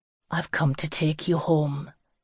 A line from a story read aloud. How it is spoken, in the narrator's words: said softly against her hair